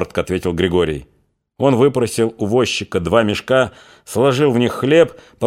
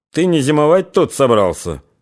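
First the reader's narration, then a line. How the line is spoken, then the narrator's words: Mocking question. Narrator (Russian): насмешливо спросил Рябчиков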